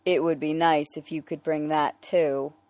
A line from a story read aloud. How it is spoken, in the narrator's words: Bruce said dryly